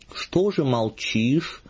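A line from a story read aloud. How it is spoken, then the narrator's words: Dejected, gloomy. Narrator (Russian): уныло говорил благочинный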